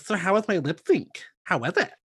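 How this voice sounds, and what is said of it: Imitates another person's voice. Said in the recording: “That impression of her because that was perfect.”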